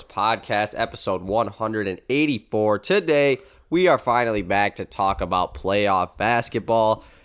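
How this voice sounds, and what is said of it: Stuffy, congested voice. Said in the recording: “as you can probably hear from my voice, I'm very stuffy right now ... you can definitely tell my voice ... sniffling and coughing”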